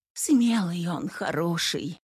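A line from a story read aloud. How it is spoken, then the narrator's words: Whisper. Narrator (Russian): прошептала Сусанна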